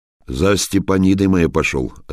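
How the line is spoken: Plain. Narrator (Russian): ответил Тюфякин

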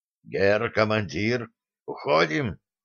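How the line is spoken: Whisper. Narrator (Russian): прошептал старпом

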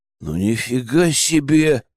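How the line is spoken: Gloomy drawl. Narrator (Russian): мрачно протянул Вадим

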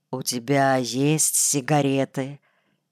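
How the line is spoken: Quiet conspiratorial question. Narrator (Russian): заговорщицки тихо спросил

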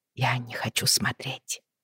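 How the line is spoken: Barely audible mumble. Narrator (Russian): пробормотала Бриана еле слышно

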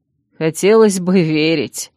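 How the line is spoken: Joyless chuckle. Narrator (Russian): невесело хохотнул он

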